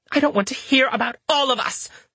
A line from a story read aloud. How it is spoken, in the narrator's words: Louisa spat